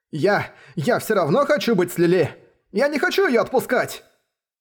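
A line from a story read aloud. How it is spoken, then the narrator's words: Determined shouting. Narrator (Russian): Решительность, с которой кричал Белл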